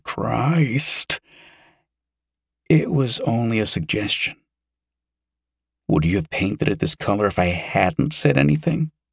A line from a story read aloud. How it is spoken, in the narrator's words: Yosef groaned